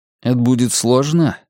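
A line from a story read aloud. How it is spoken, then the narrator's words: Plain. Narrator (Russian): спросил я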